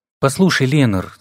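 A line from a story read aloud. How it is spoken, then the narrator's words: Calm, thoughtful. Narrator (Russian): старался говорить спокойно и вдумчиво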